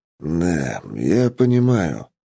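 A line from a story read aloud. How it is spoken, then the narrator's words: Mumbling. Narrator (Russian): пробормотал я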